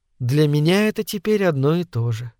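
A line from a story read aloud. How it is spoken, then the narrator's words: Quiet reply. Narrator (Russian): тихо ответила миссис Долан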